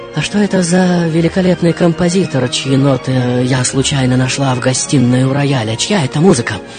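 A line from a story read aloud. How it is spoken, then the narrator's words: Embarrassed nervous mumble. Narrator (Russian): лицо мгновенно заливает краска, взволнованно мямлю под нос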